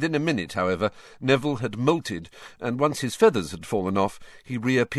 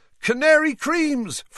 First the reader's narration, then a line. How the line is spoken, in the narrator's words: Fred shouted to the excitable crowd